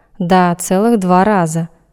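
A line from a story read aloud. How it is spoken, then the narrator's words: Angry reply. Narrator (Russian): я разозлилась и ответила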